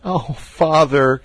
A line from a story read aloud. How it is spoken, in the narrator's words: said he, sobbing